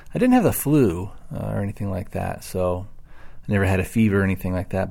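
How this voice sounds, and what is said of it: Voice sounding a little off. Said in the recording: “my voice is a little off. I'm fighting off a cold here.”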